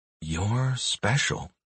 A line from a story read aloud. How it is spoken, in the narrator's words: I whisper